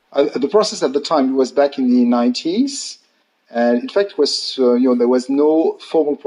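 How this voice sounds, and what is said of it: Strong French accent in English. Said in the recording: “a podcast in English with a very strong French accent and influence”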